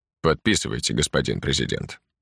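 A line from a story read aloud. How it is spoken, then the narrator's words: Calm. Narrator (Russian): спокойно произнес Геринг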